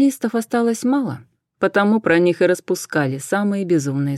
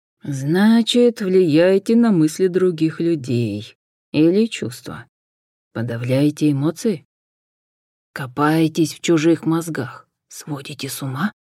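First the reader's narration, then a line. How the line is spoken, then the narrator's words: Sigh. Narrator (Russian): Джен вздохнула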